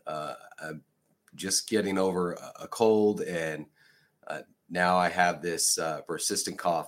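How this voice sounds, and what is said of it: Raspy voice. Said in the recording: “Mine is starting off a little raspy.”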